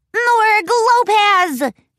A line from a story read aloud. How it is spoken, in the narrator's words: yelled